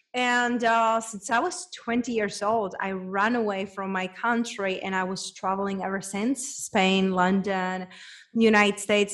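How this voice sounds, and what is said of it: Czech accent in English. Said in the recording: “It's a girl from small town back in Czech Republic. Hence, that's where my accent is from”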